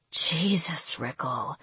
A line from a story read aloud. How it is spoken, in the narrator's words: she breathed